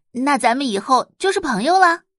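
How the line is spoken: Smiling. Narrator (Chinese): 李欣笑着道

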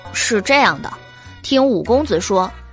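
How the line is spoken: Surprised exclamation in unison. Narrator (Chinese): 袁耀和白姬不约而同的惊叹

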